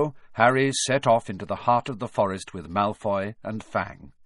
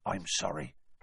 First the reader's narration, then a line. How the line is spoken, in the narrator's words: Hagrid added in a whisper to Harry